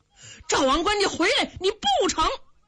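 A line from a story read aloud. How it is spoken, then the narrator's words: Anxious shouting. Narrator (Chinese): 急得耿纯、耿眼爷俩直嚷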